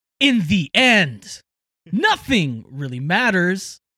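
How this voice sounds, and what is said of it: Beat poetry Christopher Walken impression. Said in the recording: “I just sound like Christopher Walken ... trying to do a Christopher Walken impersonation, and I can't do it.”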